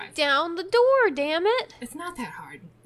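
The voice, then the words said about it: Texan accent. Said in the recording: “You made my accent come out... You made ... Texan.”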